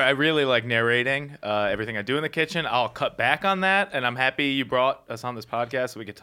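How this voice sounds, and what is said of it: Usual voice. Nothing is said of it.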